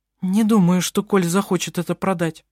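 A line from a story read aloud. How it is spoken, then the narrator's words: Trembling voice. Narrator (Russian): произнесла она дрожащим голосом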